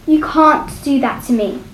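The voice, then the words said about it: Strong, determined voice. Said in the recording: “in a strong, determined voice”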